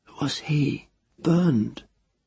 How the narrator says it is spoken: Teru whispered

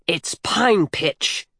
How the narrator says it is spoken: shouted furiously

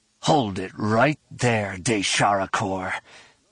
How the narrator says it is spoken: Chalco growled in low tones

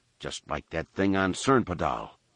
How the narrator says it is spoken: Han muttered breathlessly

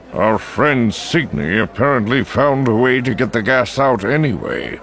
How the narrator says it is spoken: Yularen growled

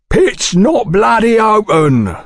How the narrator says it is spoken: bellowed a fat man

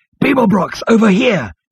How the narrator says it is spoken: he shouted

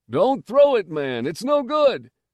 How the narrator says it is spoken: he was indignant

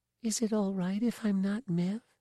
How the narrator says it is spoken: she whispered

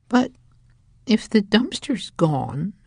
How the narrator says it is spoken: she said in a very small voice

